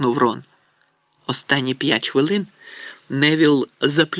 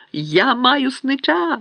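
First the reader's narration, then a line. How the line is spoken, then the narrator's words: Shout. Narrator (Ukrainian): закричав він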